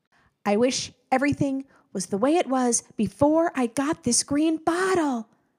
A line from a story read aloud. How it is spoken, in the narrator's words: shouted